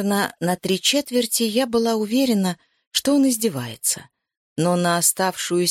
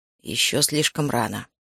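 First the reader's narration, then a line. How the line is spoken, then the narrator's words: Mumbled. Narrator (Russian): пробормотал Макс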